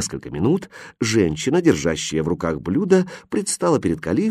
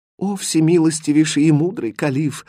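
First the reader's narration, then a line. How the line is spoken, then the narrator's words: Trembling voice. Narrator (Russian): дрожащим голосом сказала Фатьма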